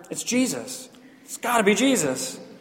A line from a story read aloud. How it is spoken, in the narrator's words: Gary from Ohio whispered